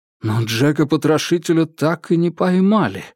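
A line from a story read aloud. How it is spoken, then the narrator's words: Exclaimed. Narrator (Russian): воскликнул Джеймс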